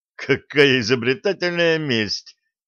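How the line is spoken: Girl laughing. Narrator (Russian): рассмеялась девушка

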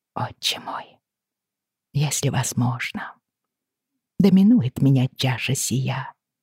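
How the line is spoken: Whisper. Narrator (Russian): прошептала я

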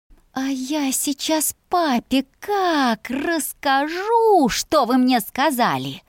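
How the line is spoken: Snake-like hiss. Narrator (Russian): Мой голос походил на шипение змеи

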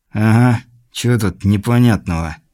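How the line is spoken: Spoken through teeth. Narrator (Russian): проговорил сквозь зубы Айс

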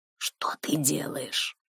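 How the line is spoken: Whispered. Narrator (Russian): прошептал он

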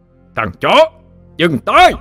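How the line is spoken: Deafening roar. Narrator (Vietnamese): Tiếng gầm vang dội trong mật thất làm cho những người còn lại hoa mắt chóng mặt, màn nhĩ như bị xé toạc đi

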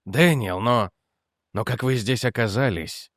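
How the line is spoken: Breathless. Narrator (Russian): выдохнул он

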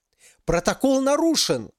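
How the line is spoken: Screaming, losing composure. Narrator (Russian): завопила женщина, впервые теряя бесстрастность

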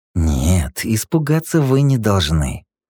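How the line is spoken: Angry hiss through teeth. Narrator (Russian): зло и сквозь зубы прошипел Текс

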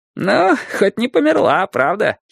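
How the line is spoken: Giggling. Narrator (Russian): хихикнул он

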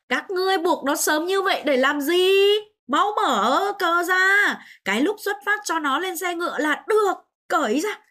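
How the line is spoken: Loud shout. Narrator (Vietnamese): Liệt Chiến Anh hét lớn

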